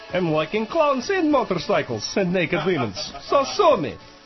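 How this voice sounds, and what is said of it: Exaggerated put-on Yugoslav accent. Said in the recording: “my ridiculous accent ... I am Yugoslav”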